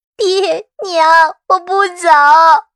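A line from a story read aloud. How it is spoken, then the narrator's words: Crying. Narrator (Chinese): 杜鹃哭着说道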